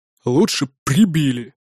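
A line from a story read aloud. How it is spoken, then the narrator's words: Angry hiss. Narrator (Russian): зло прошипел второй голос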